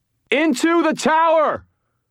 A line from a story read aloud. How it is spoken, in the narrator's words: bellowed